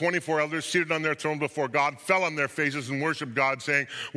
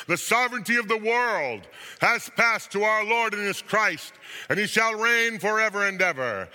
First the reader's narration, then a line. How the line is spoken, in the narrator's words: voices heard in heaven shouting